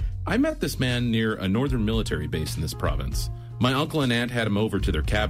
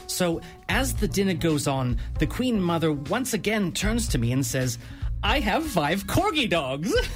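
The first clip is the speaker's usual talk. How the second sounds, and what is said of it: Posh-sounding British accent. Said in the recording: “They are spoken by a posh-sounding British accent”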